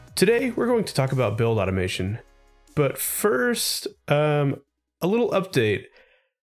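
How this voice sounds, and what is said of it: Slightly congested, sickly voice. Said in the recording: “my voice sounds a little sickly... I just probably sound a little congested”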